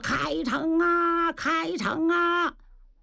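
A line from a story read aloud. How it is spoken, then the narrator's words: Shouting. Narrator (Chinese): 王爷自个儿喊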